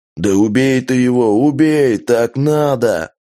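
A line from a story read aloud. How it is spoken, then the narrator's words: Roaring. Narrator (Russian): взревел Джек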